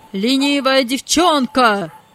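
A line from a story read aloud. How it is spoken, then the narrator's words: Angry shout. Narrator (Russian): закричал хозяин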